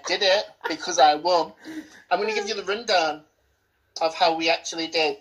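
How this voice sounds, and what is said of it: Usual voice. Nothing is said of it.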